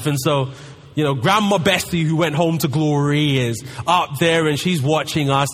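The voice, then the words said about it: London English accent. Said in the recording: “as you can tell by my accent, I'm from London”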